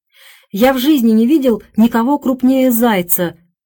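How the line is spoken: Delighted exclamation. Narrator (Russian): воскликнул Хёрст с искренним восторгом

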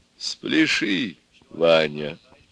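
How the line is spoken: Quiet and tender. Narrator (Russian): тихо и ласково сказала самая умная голова

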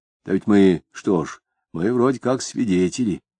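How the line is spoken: Quiet. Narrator (Russian): тихо ответил Егерев

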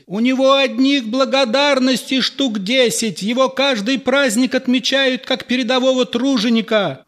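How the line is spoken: Shouted from audience. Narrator (Russian): выкрикнули из зала

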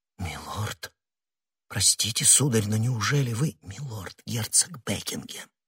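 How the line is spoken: Low voice. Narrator (Russian): вполголоса проговорила госпожа Бонасье

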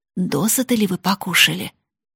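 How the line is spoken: Woman whispering in ear. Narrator (Russian): жена его шептала на ухо каждой гостье

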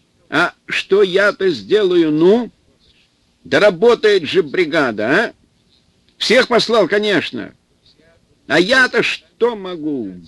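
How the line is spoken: Straining yell into phone. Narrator (Russian): Председатель Талицкого сельсовета Трофимов Кузьма, надрываясь, орал в телефон

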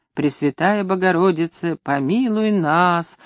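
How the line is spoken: Monks singing wearily. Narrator (Russian): устало пели монахи

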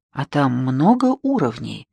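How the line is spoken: Plain. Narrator (Russian): спросил я

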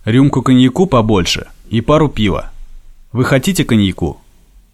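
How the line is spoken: Stern lordly question. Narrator (Russian): строгим тоном барина спросил

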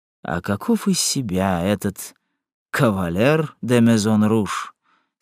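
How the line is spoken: Calm question. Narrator (Russian): спросил Моран спокойно

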